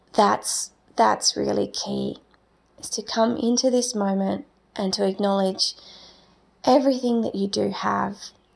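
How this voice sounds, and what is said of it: Croaky voice. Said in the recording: “my voice was a bit croaky”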